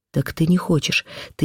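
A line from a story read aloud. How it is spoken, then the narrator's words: Frenzied whisper. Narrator (Russian): шептал он мне в каком-то исступлении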